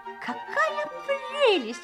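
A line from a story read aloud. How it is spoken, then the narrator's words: Exclamation. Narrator (Russian): воскликнула принцесса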